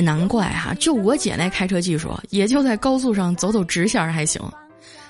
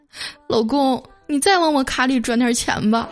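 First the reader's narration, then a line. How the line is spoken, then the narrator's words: Tearful. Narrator (Chinese): 我姐的声音，带着哭腔说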